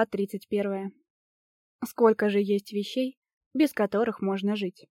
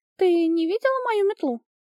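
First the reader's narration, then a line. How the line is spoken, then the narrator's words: Agitated question. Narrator (Russian): взволнованно спросила Огни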